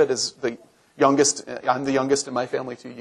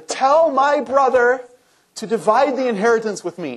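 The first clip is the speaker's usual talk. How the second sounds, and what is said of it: Petulant whining voice. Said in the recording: “in your best whining voice ... You can work up that voice.”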